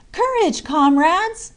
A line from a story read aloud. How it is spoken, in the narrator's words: he exclaimed